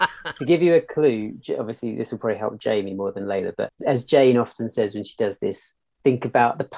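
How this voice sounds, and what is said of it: Usual voice. Nothing is said of it.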